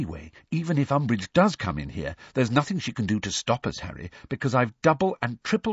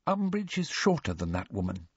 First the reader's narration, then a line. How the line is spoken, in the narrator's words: said quietly